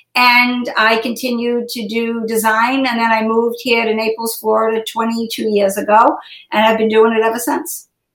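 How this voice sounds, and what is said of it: Boston-Brooklyn-tinged American accent. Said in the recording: “you've developed an awesome Naples accent. I love the dialect... Straight out of Boston and Brooklyn from where my mom was from. So it's a weird accent that just doesn't go away.”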